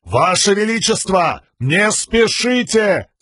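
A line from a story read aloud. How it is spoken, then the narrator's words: Shout. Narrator (Russian): крикнул Далинар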